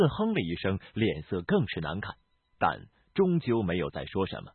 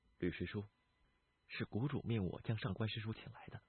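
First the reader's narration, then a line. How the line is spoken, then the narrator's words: Hushed whisper. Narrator (Chinese): 李寻 压低声音轻声道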